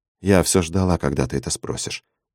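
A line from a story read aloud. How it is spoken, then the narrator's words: Quiet. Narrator (Russian): сказала она тихо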